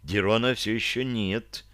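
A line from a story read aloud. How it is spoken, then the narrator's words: Whisper in ear. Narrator (Russian): прошептала мне на ухо Таша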